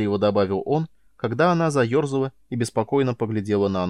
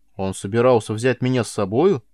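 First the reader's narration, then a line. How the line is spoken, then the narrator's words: Excited amazement. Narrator (Russian): взволнованно изумилась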